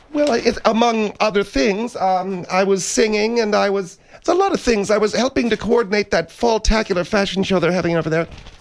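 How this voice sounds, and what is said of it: Hoarse, strained voice. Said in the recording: “lost your voice”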